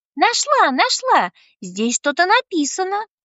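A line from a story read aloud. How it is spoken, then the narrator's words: Joyful girl's exclamation. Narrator (Russian): воскликнула девочка, прыгая от счастья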